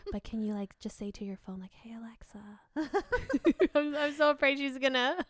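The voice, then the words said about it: Whispering. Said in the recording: “I'm whispering so she doesn't hear.”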